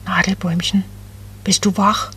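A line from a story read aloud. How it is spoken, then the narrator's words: Very soft cooing. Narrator (German): Ganz leise gurrte Becky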